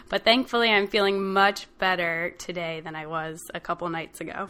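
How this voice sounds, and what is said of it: Deeper than usual voice. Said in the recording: “I'm getting over a cold, so my voice might sound a little bit deeper today than it normally does.”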